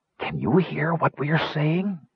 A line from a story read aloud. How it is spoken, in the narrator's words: said Wingover in a bare whisper